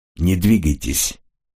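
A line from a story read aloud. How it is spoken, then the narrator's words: Calm. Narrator (Russian): спокойно сказал он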